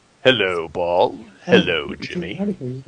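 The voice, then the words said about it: Evil character voice. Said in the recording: “That's my evil voice.”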